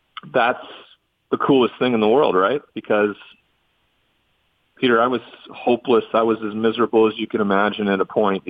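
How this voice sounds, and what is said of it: Emotional, choked-up voice. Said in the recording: “I'm getting a little emotional here.”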